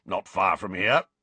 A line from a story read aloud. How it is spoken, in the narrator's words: grunted Moody